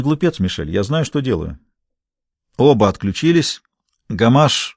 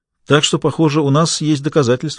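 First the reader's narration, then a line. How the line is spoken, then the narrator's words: Plain. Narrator (Russian): сказал Лемье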